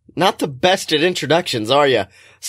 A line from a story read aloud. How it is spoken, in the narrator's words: Scotty laughs